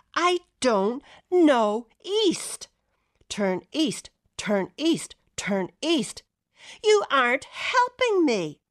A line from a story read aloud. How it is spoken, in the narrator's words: I was shouting